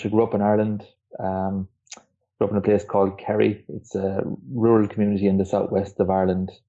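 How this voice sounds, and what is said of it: Irish accent. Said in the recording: “from my accent, everyone will know at this stage, I'm Irish”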